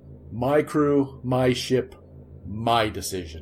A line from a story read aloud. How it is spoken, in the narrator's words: he growled